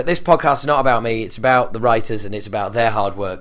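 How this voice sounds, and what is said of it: Deeper, croaky voice. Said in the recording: “my voice is a little deeper, a little croakier ... I might sound a little bit more sexy than normal”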